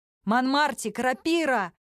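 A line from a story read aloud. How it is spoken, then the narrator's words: Shout. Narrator (Russian): Она крикнула это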